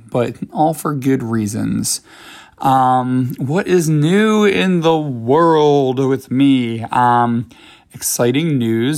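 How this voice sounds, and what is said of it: Slightly hoarse, crackly voice. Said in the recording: “I'm losing my voice a little bit. So if my voice sounds a little bit crackly right now”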